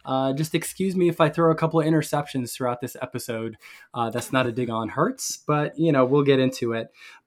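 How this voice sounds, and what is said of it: Sick, under-the-weather voice. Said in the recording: “please excuse my voice. I've been a little under the weather the last few days”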